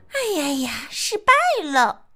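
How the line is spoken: Sighing. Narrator (Chinese): 我也跟着叹气

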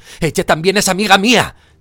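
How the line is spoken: Shout muffled into bubble. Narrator (Spanish): gritó Harry, sin echar por la boca más que una enorme burbuja plateada

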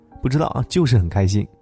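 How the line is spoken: Happy laughing. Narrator (Chinese): 她笑着说

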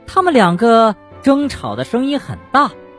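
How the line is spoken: Shouting. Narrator (Chinese): 蹦蹦也喊道

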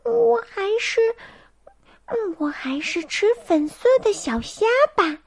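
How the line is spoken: Soft, to herself. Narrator (Chinese): 希尔维轻声的对自己说

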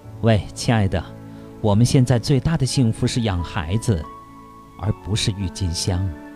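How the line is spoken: Gentle tender voice. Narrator (Chinese): 太太温柔地对丈夫说

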